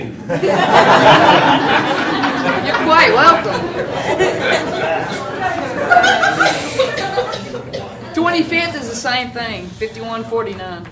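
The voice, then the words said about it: Kentucky accent. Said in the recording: “Sorry about my accent. ... It's that Kentucky accent.”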